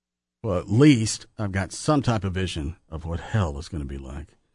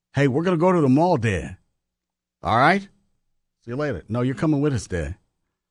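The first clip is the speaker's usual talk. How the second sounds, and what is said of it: Put-on Boston accent. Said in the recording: “That accent ... So I got that Bostonian accent ... In stereo.”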